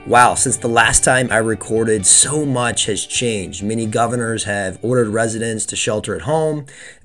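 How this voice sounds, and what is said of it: Congested, allergy-affected voice. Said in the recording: “forgive my voice. I am suffering from allergies”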